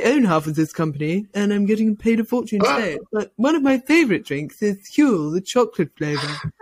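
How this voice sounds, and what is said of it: Playful impression of someone's voice. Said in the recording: “impressions ... That's one of your best ... I don't think you sound anything like that ... everyone who I do an impression of has exactly the same voice”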